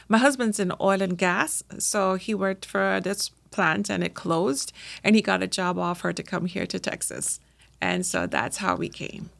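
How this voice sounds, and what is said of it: Trinidadian accent. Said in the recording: “obviously you're not a native Texan... Your accent gives out... I was born in Trinidad and Tobago”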